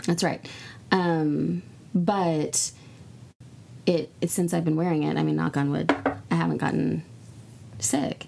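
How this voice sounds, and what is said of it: Hoarse voice. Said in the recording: “I'm hoarse right now from a video game thing. ... I'm not sick. I'm just hoarse. ... Your voice needs some rest. ... I screamed out.”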